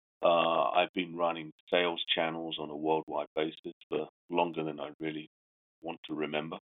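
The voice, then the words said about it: Slight British accent. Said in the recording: “I've got a slight accent. I'm from the UK.”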